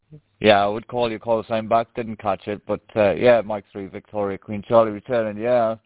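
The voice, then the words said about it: Northeast English accent. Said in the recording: “a bit of a northeast... a northeast accent there”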